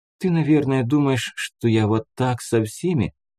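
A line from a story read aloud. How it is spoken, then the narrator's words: Sad, sighing. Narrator (Russian): сказала она грустно со вздохом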